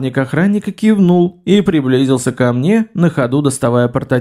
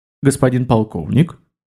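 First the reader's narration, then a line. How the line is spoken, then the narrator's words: Formal tone. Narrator (Russian): начал официальным тоном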